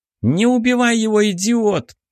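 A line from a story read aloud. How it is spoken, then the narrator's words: Indignant shouting. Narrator (Russian): возмущенно закричала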